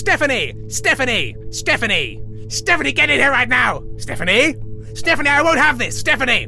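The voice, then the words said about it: Yelling a name repeatedly. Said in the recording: “you're yelling”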